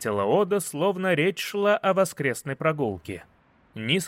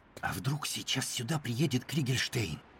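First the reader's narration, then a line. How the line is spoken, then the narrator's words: Whispered. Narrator (Russian): прошептал он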